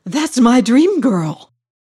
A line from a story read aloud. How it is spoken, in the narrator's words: he breathed